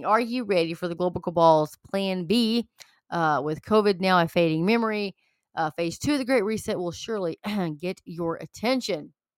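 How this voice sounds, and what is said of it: Hoarse, failing voice. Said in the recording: “I'm losing my voice, ... Woo! I'm losing my voice.”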